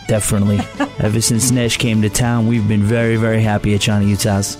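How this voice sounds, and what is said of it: New York area accent. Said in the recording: “you definitely have a New York area accent”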